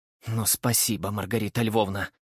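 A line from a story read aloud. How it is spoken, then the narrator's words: Woman muttering through clenched teeth. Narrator (Russian): процедила сквозь зубы вторая жена, Ульяна Ивановна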